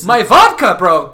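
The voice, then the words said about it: Mock Russian accent, sing-song cadence. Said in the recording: “the same cadence that we all use for the in Soviet Russia blank blanks you joke... every sentence she says has the same up and down pattern, like Rocky Bullwinkle”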